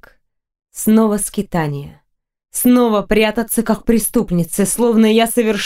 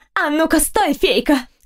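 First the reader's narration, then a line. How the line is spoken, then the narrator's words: Shriek. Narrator (Russian): взвизгнула она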